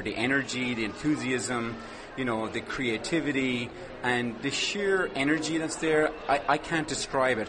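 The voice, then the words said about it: Irish accent. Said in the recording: “Obviously, I have an Irish accent”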